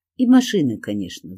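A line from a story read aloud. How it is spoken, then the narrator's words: Sighing. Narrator (Russian): вздохнул Володька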